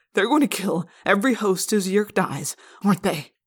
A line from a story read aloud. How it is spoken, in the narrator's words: Prince Jake asked bitterly